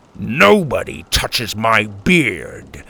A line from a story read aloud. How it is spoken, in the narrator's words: Grandpa grumbled